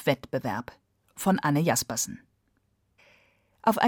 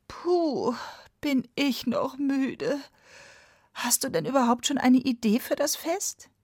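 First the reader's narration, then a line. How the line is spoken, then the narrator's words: Tired groaning. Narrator (German): der Puhvogel stöhnte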